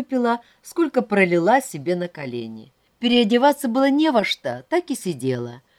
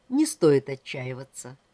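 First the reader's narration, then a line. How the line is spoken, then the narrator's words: Calm. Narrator (Russian): спокойно сказал Алексей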